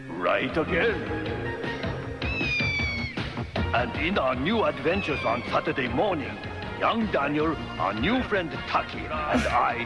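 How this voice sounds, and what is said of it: Strange unplaceable accent, cartoon Mr. Miyagi. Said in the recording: “That voice makes me uncomfortable. ... It's not even like an accent I've ever heard before.”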